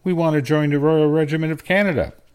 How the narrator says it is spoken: I blurted out

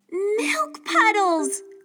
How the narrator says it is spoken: Chloe exclaimed

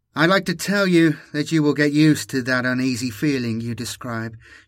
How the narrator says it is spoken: she sighed

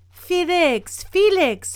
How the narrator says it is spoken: she called out

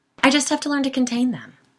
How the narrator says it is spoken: Sigourney said quickly

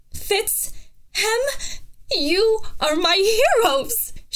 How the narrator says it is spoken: she cried

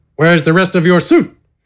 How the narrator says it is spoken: Gafgarn grunted

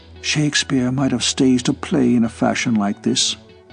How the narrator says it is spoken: Derek whispered

